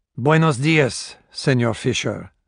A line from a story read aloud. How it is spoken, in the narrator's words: said the voice